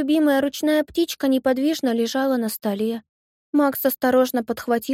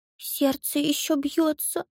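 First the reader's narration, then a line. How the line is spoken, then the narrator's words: Boy's trembling mutter. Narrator (Russian): пробормотал мальчик дрожащим голосом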